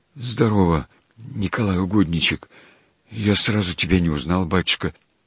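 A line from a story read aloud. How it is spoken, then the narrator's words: Gentle meek quiet voice. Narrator (Russian): стараясь тоже ласково, тоже кротко и благостно, сказал тихо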